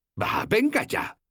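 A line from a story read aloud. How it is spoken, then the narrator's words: Exclaimed. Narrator (Spanish): exclamé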